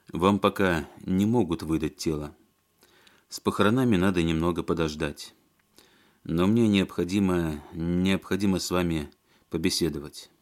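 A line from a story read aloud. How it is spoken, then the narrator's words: Soft speech. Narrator (Russian): мягко сказал Алексей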